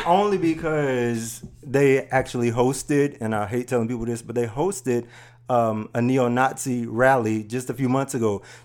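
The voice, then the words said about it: Country accent. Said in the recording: “That accent ... I'm a country boy, yo.”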